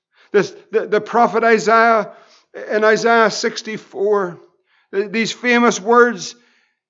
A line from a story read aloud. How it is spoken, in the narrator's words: he cries